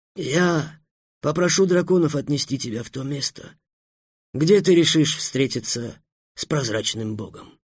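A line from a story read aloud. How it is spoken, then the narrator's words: Plain. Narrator (Russian): сказал визирь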